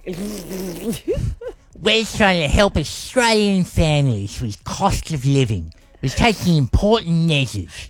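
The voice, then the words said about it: Exaggerated impression of another person's voice. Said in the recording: “Albo impersonation ... He doesn't sound like that. ... You've exaggerated slightly.”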